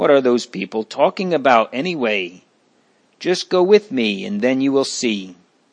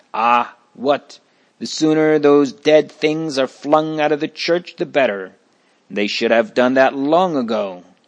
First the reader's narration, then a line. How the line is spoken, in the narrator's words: The first one snaps back